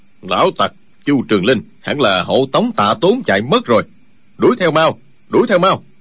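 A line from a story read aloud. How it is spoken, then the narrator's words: Deep gruff voice. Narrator (Vietnamese): Chỉ nghe một giọng ồm ồm nói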